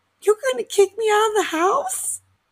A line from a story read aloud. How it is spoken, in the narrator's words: starts sobbing and she's like